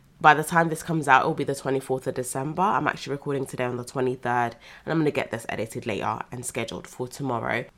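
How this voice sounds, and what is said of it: Congested, slightly nasal voice. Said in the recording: “My nose is still a little bit blocked and I still feel like my voice sounds a bit nasally”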